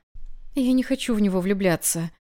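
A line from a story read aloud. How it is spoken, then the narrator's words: Pitiful whisper. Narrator (Russian): жалко прошептала я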